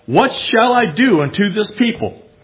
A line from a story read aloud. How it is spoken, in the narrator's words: Moses cried to the Lord, saying